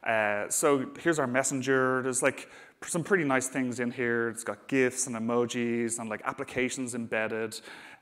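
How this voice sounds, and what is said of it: Irish Dublin accent. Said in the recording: “I'm based in Dublin, as you can probably tell from my accent.”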